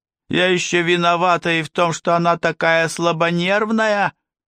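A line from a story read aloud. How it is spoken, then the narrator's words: Full-lunged bellow. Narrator (Russian): Мехмед набрал в легкие воздух и заорал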